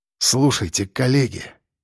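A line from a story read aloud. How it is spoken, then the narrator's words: Muffled, dull voice. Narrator (Russian): сказал он глухо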